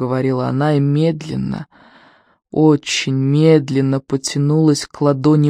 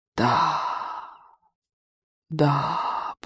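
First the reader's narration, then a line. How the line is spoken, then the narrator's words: Whisper. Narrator (Russian): прошептала она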